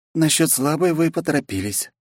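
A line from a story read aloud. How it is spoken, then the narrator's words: Dry reply. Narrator (Russian): сухо ответила Вета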